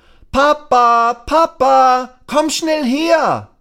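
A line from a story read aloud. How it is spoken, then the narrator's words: Calling out. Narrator (German): Lasse ruft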